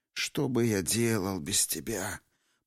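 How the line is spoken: Muffled mutter. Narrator (Russian): пробормотал господин второй некромастер, утыкаясь лицом в черный лохматый бок

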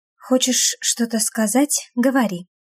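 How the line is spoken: Low voice. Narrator (Russian): проговариваю вполголоса

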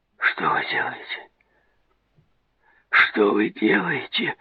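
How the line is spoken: Frightened moan. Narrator (Russian): Застонал он, испуганно

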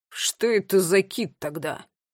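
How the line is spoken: Grumbling. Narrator (Russian): проворчала Тила

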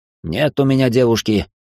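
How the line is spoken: Irritated. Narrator (Russian): раздраженно ответил он

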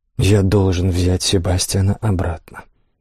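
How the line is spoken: Soft. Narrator (Russian): мягко проговорил он

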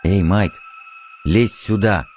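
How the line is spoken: Anxious, hoarse call. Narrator (Russian): позвал он тревожным, хриплым голосом

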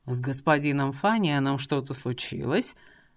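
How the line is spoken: Lazy inquiry. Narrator (Russian): лениво поинтересовался Дворецкий

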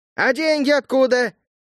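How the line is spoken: Shout from the back. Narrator (Russian): выкрикнул кто-то с задних рядов

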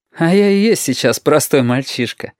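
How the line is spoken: Laughing boy. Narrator (Russian): опять посмеялся Юртанка

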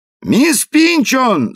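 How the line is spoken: Boy shouting out window. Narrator (Russian): закричал мальчишка в окно

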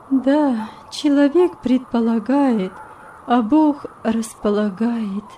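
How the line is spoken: Sad reply. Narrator (Russian): грустно ответила госпожа советница

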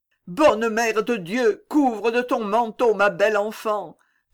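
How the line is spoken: Desolate mother's cry. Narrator (French): s'écria la pauvre mère d'un cri désolé

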